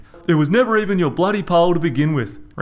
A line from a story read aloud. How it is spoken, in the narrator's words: Reg yelled